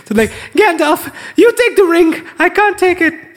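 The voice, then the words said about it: High-pitched screaming voice. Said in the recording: “This is my impression. ... he's a very high-pitched scream.”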